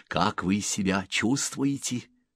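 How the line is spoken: Whisper. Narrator (Russian): прошептал Селло

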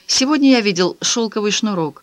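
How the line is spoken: Calm statement. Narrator (Russian): спокойно заявил

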